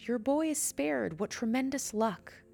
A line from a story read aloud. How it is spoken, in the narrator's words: The neighbor shouted